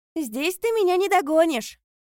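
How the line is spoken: Sister shouting. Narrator (Russian): крикнула ему сестра

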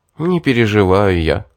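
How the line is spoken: Sigh. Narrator (Russian): вздохнул я

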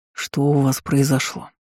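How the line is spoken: Tired question. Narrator (Russian): устало спросил старший из многочисленных княжеских отпрысков

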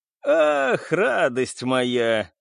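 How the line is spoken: Giggle. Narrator (Russian): хихикнул мистер Кирби

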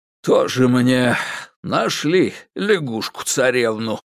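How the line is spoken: Sighing. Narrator (Russian): вздохнул старший лейтенант

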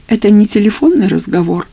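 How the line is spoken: Timid explanation. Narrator (Russian): робко объяснила Наташа

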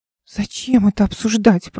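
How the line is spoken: Moaning. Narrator (Russian): простонала Оля

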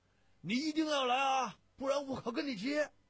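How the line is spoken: Hoarse shout. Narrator (Chinese): 他 咳着嗓门喊

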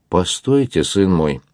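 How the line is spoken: Stern. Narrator (Russian): строго остановил его монах

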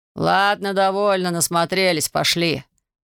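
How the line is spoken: Rough, curt. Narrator (Russian): грубо бросил надзиратель

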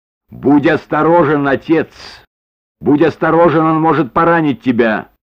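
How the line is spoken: Shouted warning. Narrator (Russian): Маргарет крикнув

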